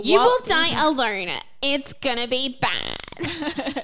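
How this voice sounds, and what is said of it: Sassy put-on character voice. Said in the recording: “a super sass one ... a terrible Miss Piggy impersonation. That's not my Miss Piggy impersonation. That's my sass impersonation.”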